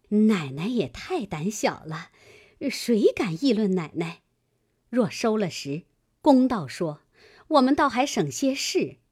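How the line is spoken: Laughing. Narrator (Chinese): 旺儿媳妇笑道

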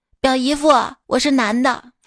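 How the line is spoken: Excited loud answer. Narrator (Chinese): 我非常激动，大声的回答说

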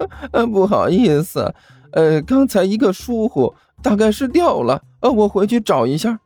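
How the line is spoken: Embarrassed laugh. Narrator (Chinese): 刘阿八 不好意思的笑道

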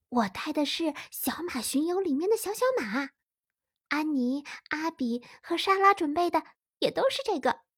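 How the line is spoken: Whisper. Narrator (Chinese): 丽萨小声对艾拉说

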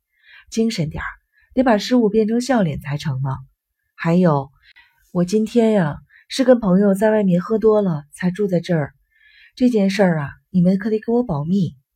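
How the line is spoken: Hasty joking. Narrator (Chinese): 尤西看他们这样，赶紧开玩笑说

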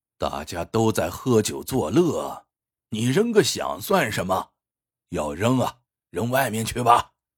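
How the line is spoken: Sneering. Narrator (Chinese): 老客冷笑说

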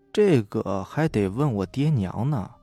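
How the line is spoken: Muttering. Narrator (Chinese): 嘀咕道

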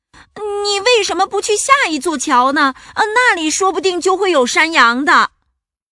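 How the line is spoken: Shrieking. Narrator (Chinese): 蜘蛛尖叫道

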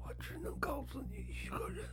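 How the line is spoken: Hoarse, very low voice. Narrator (Chinese): 黄少平嘶哑的声音压得很低

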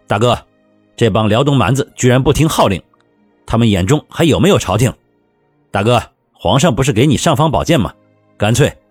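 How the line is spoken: Loud. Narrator (Chinese): 卢相同大声说道

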